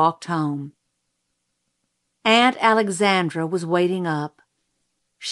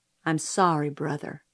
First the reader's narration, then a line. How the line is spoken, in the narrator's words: she murmured